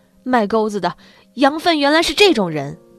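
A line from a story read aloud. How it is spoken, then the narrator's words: Wild roaring. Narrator (Chinese): 张着血盆大口吼道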